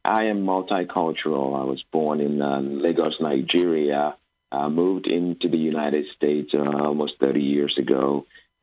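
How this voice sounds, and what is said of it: Slight foreign accent. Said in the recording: “you have a little bit of an accent”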